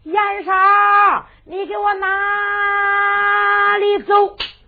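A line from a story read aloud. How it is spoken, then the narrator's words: Shouting. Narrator (Chinese): 一喊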